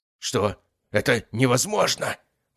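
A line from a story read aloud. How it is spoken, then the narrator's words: Hoarse rasp. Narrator (Russian): прохрипел он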